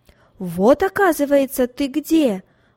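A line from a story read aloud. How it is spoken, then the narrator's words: Loud shout, stranger. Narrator (Russian): громко крикнул незнакомец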